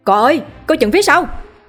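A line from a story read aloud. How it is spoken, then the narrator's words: Group's panicked scream. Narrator (Vietnamese): Nhóm người phía bên này hét lên thất thanh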